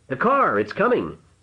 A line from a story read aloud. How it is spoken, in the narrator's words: Paul shouted